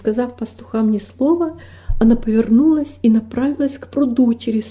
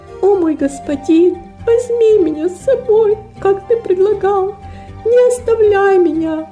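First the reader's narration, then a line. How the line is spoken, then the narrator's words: Tearful, sobbing girl. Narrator (Russian): сквозь слезы, всхлипывания проговорила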